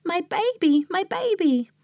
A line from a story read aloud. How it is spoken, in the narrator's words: The nurse rushed about the palace, screaming